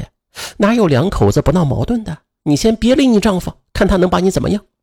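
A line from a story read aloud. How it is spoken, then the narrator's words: Offhand, casual. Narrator (Chinese): 钱玉荣却轻描淡写的说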